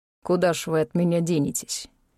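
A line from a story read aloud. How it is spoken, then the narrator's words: Rasping from above. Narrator (Russian): прохрипел над головой тот же голос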